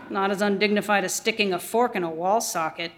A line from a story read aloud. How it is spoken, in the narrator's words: Tig murmurs back